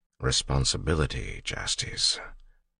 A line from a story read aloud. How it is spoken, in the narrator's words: said quietly